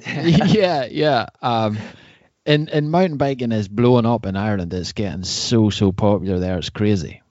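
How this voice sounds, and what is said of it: Northern Irish accent. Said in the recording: “I'm from the north of Ireland ... that's what I was uh, gathering from your accent”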